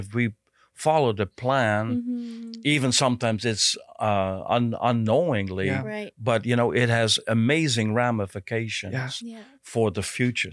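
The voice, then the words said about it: Dutch accent. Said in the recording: “people ask me my accent ... I picked up an accent ... Really, it's a Dutch accent”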